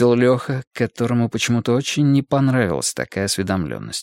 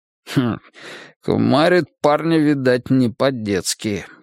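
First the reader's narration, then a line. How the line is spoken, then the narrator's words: Wry grunt. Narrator (Russian): хмыкнул Тимоха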